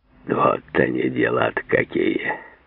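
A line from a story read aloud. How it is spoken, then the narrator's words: Sad sigh. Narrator (Russian): сказал Мартемьянов, возбужденно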